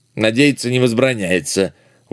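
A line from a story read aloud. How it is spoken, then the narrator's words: Pompous mutter, little man. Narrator (Russian): важно буркнул в ответ человечек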